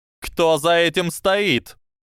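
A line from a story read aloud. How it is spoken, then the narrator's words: Shouted. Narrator (Russian): крикнула Амелия в сторону метлы, летевшей в полуметре от нее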